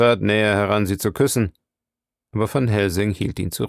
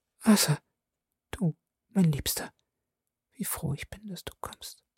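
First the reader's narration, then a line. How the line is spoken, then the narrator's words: Whispered. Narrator (German): flüsterte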